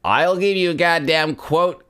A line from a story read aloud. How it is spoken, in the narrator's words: Garth shouts in his appealingly plain Californian accent